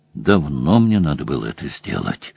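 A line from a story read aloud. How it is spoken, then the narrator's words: Muttered. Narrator (Russian): пробормотал Сэм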